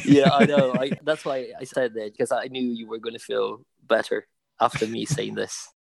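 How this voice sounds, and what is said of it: Soft Irish accent, slight Italian. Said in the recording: “there is a soft Irish element to it ... There are some elements of Italian in there, but not really that much at all”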